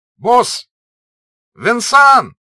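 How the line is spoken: Shouted. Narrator (Russian): прокричал Петя

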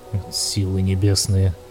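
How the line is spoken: Nauseated muttering. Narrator (Russian): бормотал Лойс, чувствуя, как к горлу подкатывает тошнота

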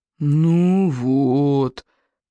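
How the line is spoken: Groaning. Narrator (Russian): застонал Сморкал

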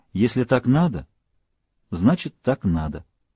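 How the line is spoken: Calm. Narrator (Russian): Сара спокойно сказала

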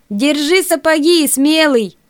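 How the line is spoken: Shouted. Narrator (Russian): крикнул

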